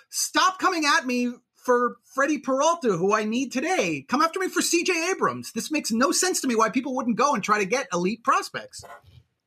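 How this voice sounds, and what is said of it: Angry ranting tone. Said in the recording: “You sound angry. Are you angry? You seem to be a little bit angry right now. ... your rant's a little bit angrier than my rants”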